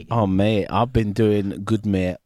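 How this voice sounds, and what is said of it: Hull accent. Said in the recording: “Have you moved to Hull? ... East Hull? ... Just like the accent.”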